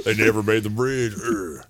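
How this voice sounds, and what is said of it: Imitates a hardcore band singer. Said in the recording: “my Bucksport hardcore impression”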